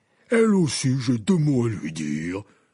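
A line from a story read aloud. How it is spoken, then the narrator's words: Stern growl. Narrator (French): gronda Hagrid d'un air sévère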